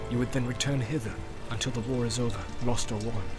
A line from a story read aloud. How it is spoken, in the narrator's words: said Eomer in a low voice